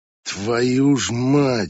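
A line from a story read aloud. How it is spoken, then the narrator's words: Grumbled mutter. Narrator (Russian): буркнула Конви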